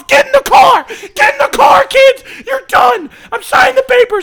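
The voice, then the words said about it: Yelling angrily. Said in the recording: “I'm yelling at you from downstairs! I'm yelling”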